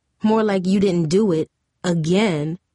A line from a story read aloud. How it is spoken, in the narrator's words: Monique replied